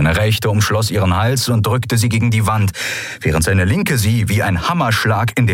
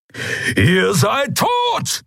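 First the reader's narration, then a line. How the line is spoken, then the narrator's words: Thundering. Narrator (German): donnerte Keru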